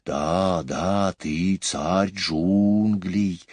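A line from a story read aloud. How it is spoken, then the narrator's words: Hissing in unison. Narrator (Russian): дружно зашипели змеи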